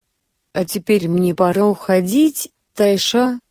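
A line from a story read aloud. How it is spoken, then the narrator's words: Quiet. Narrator (Russian): сказала тихо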